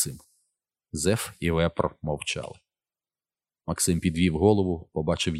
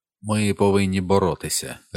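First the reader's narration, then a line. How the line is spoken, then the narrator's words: Even voice. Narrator (Ukrainian): рівним голосом вимовив Вепр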